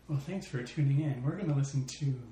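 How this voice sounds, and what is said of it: Cool jazz radio DJ voice. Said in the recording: “my cool jazz radio DJ voice”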